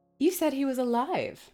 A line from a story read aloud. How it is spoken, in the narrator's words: I exclaimed